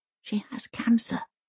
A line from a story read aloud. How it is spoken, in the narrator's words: whispers Elsa